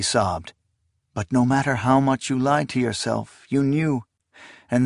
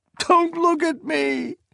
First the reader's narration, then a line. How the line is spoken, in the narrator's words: she cried